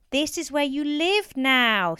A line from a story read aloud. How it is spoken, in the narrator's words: Stephen shouted